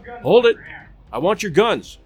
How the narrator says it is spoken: Virgil called out

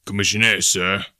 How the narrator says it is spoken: he said gruffly

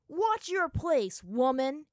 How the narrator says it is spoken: he yelled at her

